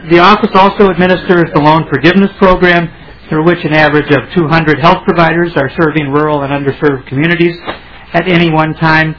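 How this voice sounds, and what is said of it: Speaking very fast. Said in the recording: “I'm talking very fast.”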